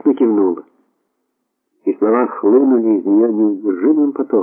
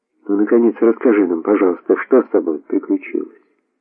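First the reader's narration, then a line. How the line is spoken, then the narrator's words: Soft. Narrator (Russian): сказала Урсула мягко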